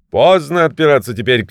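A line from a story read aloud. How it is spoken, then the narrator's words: King shouting. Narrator (Russian): крикнул на него царь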